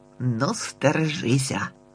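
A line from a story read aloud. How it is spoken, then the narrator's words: Gloomy grumble. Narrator (Ukrainian): буркнув похмуро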